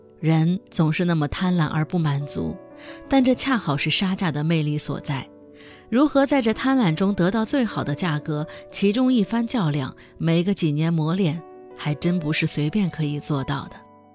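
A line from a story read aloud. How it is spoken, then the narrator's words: Sighing, reflective. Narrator (Chinese): 最后他感叹道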